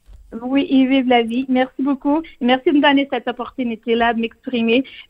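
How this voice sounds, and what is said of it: Charming foreign accent speaking French. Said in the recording (French): “Même avec mon accent ... vous parlez euh, français avec un accent qui est absolument euh, charmant”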